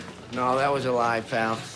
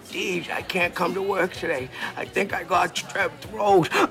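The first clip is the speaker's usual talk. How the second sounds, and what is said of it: Fake sick, ill-sounding voice. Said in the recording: “You sounded so sick on the phone... Do that sick voice again... You could be a radio actor or something.”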